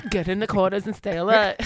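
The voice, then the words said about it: Put-on German accent. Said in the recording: “That's an accent.”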